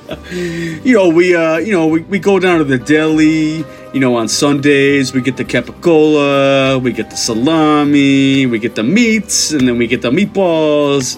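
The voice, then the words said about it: Put-on Italian New York accent. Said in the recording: “like a New York uh, New York accent ... Italian New York.”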